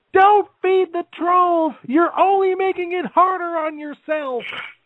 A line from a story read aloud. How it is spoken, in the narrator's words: I was tempted to yell